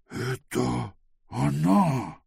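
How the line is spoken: Frightened whisper. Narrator (Russian): испуганным шепотом произнес Пилорот

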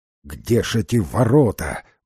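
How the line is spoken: Grumbling. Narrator (Russian): ворчал Димбл

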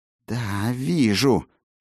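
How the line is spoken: Hiss. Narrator (Russian): прошипела она

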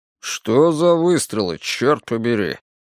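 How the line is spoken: Grumbling mutter. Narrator (Russian): пробурчал Вик с заднего сиденья

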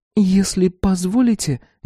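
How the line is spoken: Hesitant. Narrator (Russian): неуверенно начала Салли

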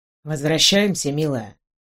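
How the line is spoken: Quiet suggestion. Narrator (Russian): тихо предложил мне командор

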